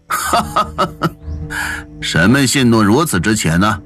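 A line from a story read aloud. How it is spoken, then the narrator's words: Laughing loudly. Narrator (Chinese): 陶令大笑道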